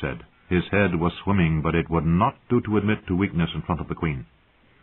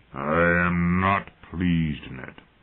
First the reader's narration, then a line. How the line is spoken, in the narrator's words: Robert grumbled